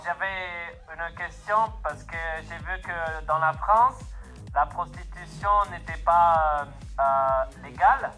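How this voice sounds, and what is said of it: Eastern European accent in French. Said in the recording (French): “Mon accent n'est pas bien parlé France, mais je suis des pays de l'Est.”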